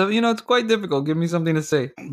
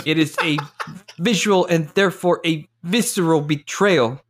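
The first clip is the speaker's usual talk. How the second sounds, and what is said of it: Imitates another person's voice. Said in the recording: “Malkovich impression ... Oh, that was very close.”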